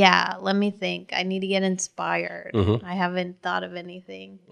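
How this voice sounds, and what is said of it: Usual voice. Nothing is said of it.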